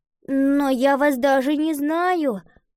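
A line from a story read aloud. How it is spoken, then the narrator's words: Uncertain. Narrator (Russian): неуверенно ответила Лотти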